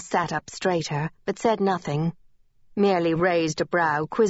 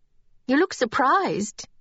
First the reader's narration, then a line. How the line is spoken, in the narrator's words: Lynette exclaimed